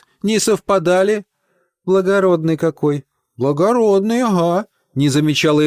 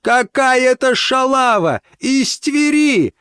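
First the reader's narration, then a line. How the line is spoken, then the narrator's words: Roaring. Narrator (Russian): взревела ОЭФ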